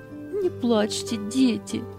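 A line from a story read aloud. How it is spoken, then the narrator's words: Soothing, holding back sobs. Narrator (Russian): еле сдерживая рыдание, успокаивала их Анита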